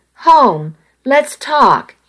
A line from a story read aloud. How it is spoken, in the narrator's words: he pleaded